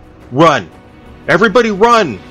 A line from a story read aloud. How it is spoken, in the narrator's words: shouted